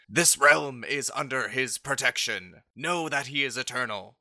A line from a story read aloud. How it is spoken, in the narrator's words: you hear the angel yell